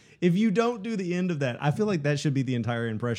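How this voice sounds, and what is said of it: Usual voice. Nothing is said of it.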